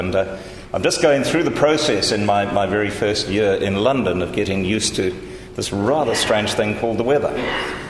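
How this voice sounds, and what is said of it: Mixed accent. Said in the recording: “amalgam of accents that you're going to come uh, or hear coming out of my mouth”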